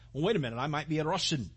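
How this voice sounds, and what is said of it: Put-on Russian accent. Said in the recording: “There's my best Russian accent.”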